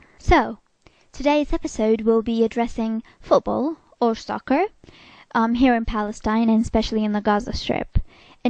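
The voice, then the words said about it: Speaker's own, less polished accent. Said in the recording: “my real and not too elegant accent”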